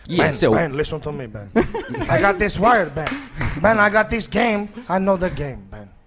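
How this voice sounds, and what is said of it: Put-on vaguely African accent. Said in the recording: “I must immediately change my accent. ... Sounds vaguely African.”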